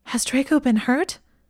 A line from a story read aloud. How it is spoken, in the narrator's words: She gasped